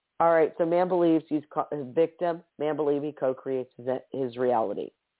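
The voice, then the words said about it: Slightly hoarse voice. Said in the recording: “my voice is a little bit hoarse ... I'm drying out a little bit”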